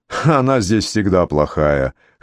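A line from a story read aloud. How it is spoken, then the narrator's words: Wry snort. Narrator (Russian): хмыкнул Клемент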